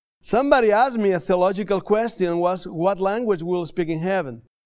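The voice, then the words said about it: Non-native English accent. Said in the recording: “help me with the English. I want to apologize for my English ... my accent”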